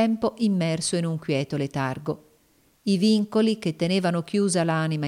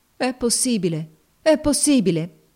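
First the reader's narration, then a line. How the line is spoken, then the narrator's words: Exclaimed. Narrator (Italian): esclamò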